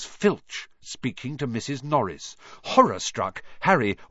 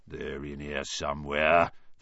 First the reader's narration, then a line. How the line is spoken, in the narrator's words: they heard him mutter